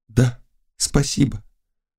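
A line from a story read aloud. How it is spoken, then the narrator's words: Very quiet rustle. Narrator (Russian): голос прошелестел совсем тихо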